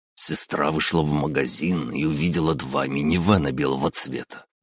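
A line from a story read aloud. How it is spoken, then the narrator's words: Professor muttering. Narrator (Russian): буркнул профессор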